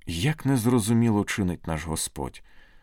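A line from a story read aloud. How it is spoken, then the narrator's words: Old woman sighing. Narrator (Ukrainian): зітхнула напівсліпа й кульгава бабуся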